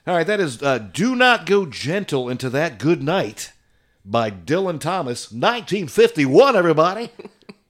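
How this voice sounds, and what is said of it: Radio DJ announcer voice. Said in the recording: “for the radio DJ voice.”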